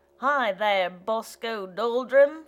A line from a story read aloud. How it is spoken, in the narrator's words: she shouted in her deep bass voice